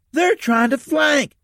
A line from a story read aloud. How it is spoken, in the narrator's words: shouted into the mic